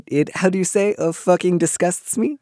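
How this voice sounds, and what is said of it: Bad put-on French accent. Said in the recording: “That was a very bad French accent.”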